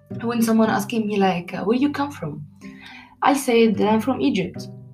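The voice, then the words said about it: Non-native English accent. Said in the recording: “our accent is not good because we are not native English ... different accent ... because of my accent, of course, totally different”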